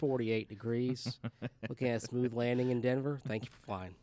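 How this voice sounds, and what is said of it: Fake Southern US accent, airline pilot. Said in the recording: “And that faux southern accent.”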